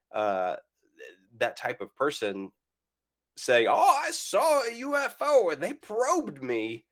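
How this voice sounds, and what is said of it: Put-on Southern American accent. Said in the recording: “I like the immediate change to a Southern accent. Like, you didn't even think about it. You immediately went Southern American”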